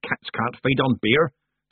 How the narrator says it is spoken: snapped Granny Weatherwax

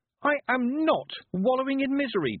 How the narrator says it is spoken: Tiffany shouted

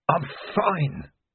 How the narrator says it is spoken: croaked Vimes, through a throat that felt stuffed with sand

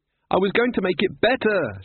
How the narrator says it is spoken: shouted Susan

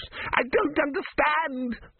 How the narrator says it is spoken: screamed Vorbis

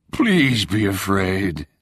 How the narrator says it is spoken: the voice moaned

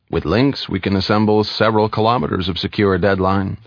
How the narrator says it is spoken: said Dymac

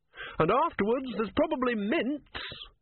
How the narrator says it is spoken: he shouted through cupped hands

